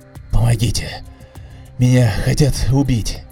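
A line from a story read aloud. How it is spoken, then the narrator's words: Desperate pleading. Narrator (Russian): Взмолился я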